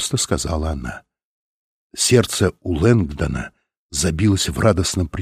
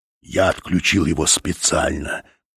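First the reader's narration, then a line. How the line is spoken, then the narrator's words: Hissed. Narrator (Russian): прошипел Фаш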